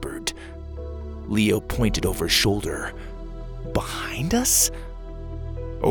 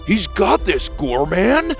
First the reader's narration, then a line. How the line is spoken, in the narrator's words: Dallas shouted